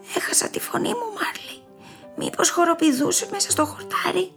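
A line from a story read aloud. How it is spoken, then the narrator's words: Soft question. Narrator (Greek): ρώτησε ο Μπέρτ σιγανά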